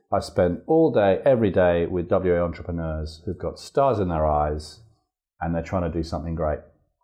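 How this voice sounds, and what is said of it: English accent. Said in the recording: “I came here 20 years ago as a school teacher from England. You can probably tell from my accent. ... I can tell you a bit of the accent”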